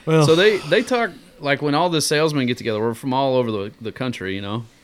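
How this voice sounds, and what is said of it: Thick Southern US accent. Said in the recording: “they say I have a really thick accent ... Oh, yeah, it's horrible. ... I can't hardly understand.”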